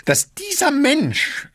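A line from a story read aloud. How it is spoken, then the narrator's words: Dry croak. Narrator (German): krächzte Gaganow, plötzlich war seine Kehle trocken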